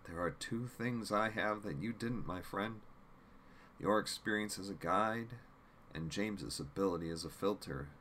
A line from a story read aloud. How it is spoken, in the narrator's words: Jim responded calmly